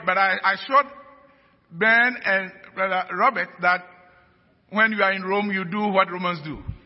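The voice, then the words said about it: Hard-to-understand accent. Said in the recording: “my accent is difficult”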